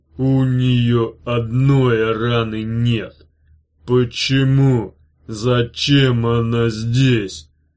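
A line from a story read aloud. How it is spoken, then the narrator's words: Deep bass voice. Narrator (Russian): басом произнес Зиги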